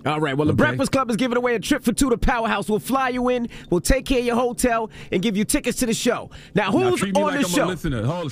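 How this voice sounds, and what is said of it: Loud, yelling announcer delivery. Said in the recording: “stop yelling at me ... because you're yelling”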